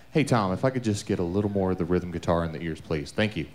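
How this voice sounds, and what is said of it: Smooth radio announcer voice. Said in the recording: “Listen to that radio voice right there.”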